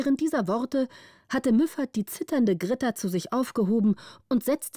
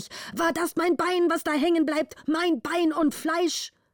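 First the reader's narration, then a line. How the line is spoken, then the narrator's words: Angry shouting. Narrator (German): schrie der Vater zornig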